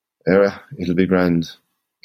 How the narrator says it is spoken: slurred

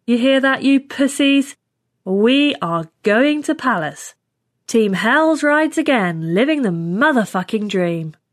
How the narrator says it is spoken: Hicks said loudly

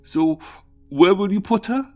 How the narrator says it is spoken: Through stuttering sobs, Tim stammered

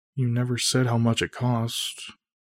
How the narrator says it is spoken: Emily mutters

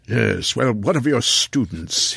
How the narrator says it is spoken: Hildyar growled again

